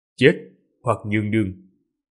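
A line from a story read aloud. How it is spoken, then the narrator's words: Cold speech. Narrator (Vietnamese): Ninh Khuyết lạnh lùng nói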